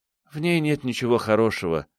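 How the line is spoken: Sigh. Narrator (Russian): вздохнула девушка

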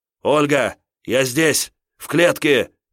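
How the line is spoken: Shouted. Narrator (Russian): крикнул Кирилл

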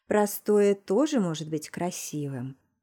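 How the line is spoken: Deep velvety voice. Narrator (Russian): глубоким бархатным голосом произнес он

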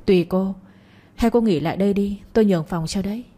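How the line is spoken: Smiling reply. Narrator (Vietnamese): mỉm cười đáp

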